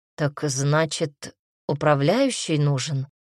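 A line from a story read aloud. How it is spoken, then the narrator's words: Thoughtful. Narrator (Russian): задумчиво сказал он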